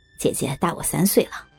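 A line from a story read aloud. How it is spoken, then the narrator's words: Smiling. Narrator (Chinese): 那人笑了笑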